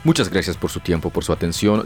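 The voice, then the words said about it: Announcer-style broadcaster voice. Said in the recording (Spanish): “Voz de locutor”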